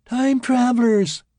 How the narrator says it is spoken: a girl squealed in delight

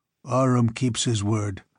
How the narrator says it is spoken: grunted yet another

